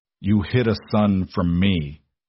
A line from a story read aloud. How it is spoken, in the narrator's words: he said, his voice dangerously low, vibrating with a restrained fury